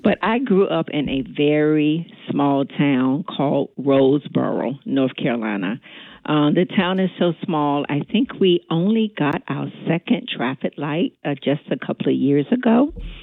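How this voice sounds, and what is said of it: North Carolina Southern accent. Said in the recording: “they can tell by my accent that I am not from New Jersey ... I am from North Carolina”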